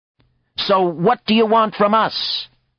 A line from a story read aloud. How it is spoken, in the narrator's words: Someone yelled from the back